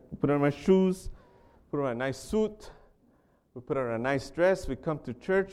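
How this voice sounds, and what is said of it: Speaks with a noticeable accent. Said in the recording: “excuse me for my accent”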